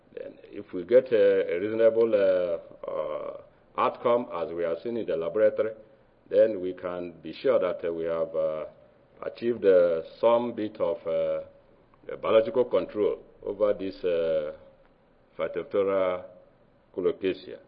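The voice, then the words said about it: Nigerian accent. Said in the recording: “my accent, but I came from Nigeria”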